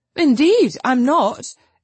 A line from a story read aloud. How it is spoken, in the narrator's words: exclaimed Lucy